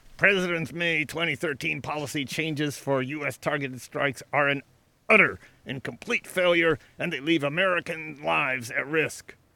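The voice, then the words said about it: Imitates another person's voice. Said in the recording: “Now I'll do my Mike Rogers impression. ... I love your Mike Rogers.”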